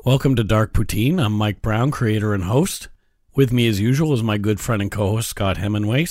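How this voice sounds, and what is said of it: Slightly croaky, wheezy voice. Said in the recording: “My voice is still a little croaky. ... From the cold that I've had ... I may not be as wheezy as I was last week.”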